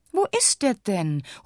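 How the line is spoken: Impatient call. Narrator (German): ruft Gregorius ungeduldig

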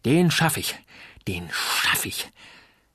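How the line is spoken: Panting. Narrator (German): keuchte Uli

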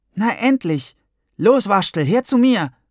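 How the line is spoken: Calling out. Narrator (German): rief Gwendolin

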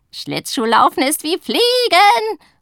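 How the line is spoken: Enthusiastic shout. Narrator (German): ruft sie begeistert

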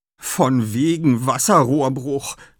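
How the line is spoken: Groaning. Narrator (German): stöhnt er

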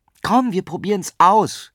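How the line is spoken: Eager call. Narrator (German): rief Paula tatendurstig

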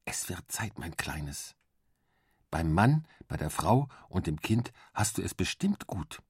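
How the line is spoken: Soft whisper in ear. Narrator (German): flüsterte mir leise ins Ohr

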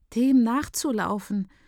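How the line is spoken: Trembling voice, agreeing. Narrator (German): pflichtet ihr Marco mit zittriger Stimme bei

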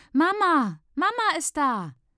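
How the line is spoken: Child shouting. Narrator (German): schreit ein Kind

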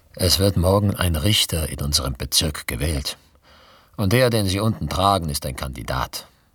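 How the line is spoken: Completely calm. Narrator (German): sagte de la Marche vollkommen ruhig

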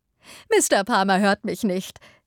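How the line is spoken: Laughing. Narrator (German): sagte lachend

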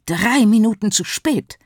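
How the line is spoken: Hissed. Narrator (German): zischte sie

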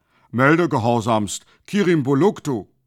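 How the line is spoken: Called out. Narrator (German): rief

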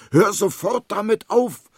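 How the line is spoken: Indignant shout. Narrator (German): ruft empört

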